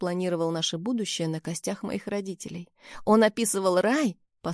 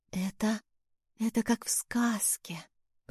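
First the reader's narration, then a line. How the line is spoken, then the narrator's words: Choked whisper. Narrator (Russian): прошептала я, и в горле стоял ком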